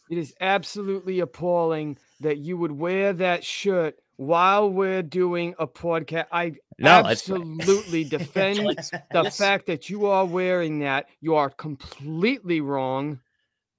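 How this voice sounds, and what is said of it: Imitates another person's voice. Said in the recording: “you got a good Fauci impression ... You gotta gravel your voice a little more”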